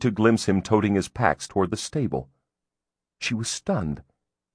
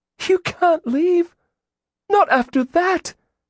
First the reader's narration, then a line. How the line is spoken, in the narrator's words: she cried